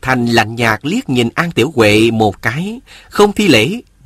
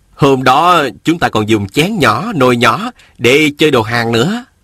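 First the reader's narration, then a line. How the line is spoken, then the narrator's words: Fond, smiling. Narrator (Vietnamese): Viên Thừa Chí mỉm cười nói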